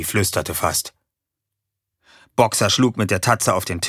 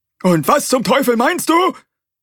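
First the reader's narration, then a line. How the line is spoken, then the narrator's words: Bellowed. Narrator (German): brüllte er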